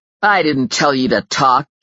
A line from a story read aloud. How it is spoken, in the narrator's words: Justin snarled